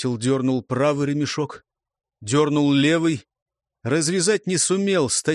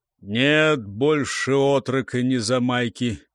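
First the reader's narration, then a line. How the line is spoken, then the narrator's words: Heavy, slow, weary. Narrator (Russian): произнес Сегар тяжело, медленно, почему-то очень устало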